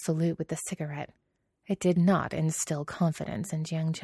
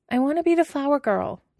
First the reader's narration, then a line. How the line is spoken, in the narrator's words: the girl called out